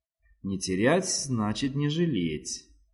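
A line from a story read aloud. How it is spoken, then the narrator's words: Delighted whisper to self. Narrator (Russian): прошептала она сама себе в восторге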